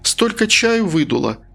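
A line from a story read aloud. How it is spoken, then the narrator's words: Naive exclamation. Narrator (Russian): простодушно воскликнула она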